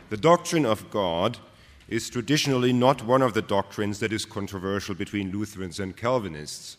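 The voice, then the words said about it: German accent in English. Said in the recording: “I do not have a British accent, but I suppose a German accent”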